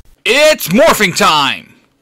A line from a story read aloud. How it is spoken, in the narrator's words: Jason yells